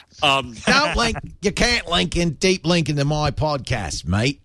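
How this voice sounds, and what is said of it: Rupert Murdoch impression, Australian accent. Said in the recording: “you don't want to sound like Rupert Murdoch... Try the accent again.”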